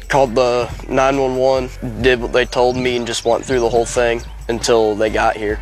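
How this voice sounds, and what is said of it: Illinois American accent. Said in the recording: “Love his accent, of course, the 16-year-old from Illinois”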